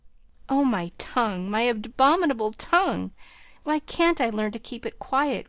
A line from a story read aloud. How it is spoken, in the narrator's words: groaned Joe, remembering words which had been her undoing